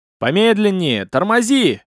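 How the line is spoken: Shout. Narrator (Russian): кричал Толлиус ученику

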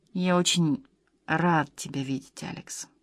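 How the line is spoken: Quiet. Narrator (Russian): тихо сказал он

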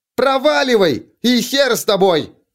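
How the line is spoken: Yelling after someone. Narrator (Russian): Заорала она вслед Изерн

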